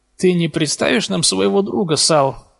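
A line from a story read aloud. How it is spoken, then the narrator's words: Question with forced smile. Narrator (Russian): выдавив улыбку, спросил Реми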